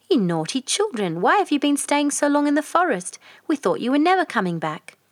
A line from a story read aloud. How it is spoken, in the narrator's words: she exclaimed